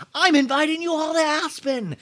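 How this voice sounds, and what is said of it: Raspy imitation of another person's voice. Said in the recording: “I'm trying to do a Kyle, but it's raspy. ... my natural rasp that I have from today”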